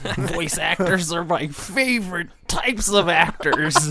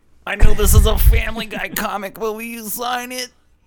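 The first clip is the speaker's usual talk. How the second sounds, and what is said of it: Impersonates an excited fan. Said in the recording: “This impersonation was not based on anybody real or factual.”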